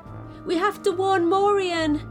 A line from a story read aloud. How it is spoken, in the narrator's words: cried Mia